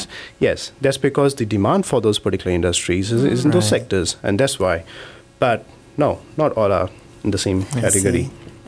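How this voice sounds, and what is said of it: Indian English accent. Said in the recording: “Indians have a funny accent ... my Indian accent goes along with the North American accent”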